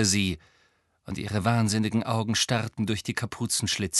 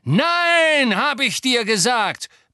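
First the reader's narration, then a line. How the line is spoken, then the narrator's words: Yelled. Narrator (German): brüllte Lucius Malfoy die Frau an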